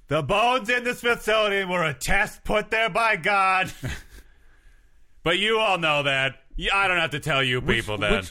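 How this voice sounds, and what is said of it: Shouting politician impression, not convincing. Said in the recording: “I'm Trump at a rally. ... Just shouting about some nonsense ... This is not a good Donald Trump impression. ... Shouting. That's my Donald Trump impression.”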